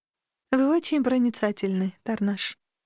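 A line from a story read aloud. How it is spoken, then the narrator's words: Sighing. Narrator (Russian): вздохнула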